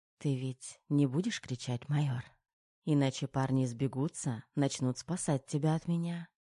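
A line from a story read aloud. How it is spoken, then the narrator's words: Whisper. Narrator (Russian): шепнула Тома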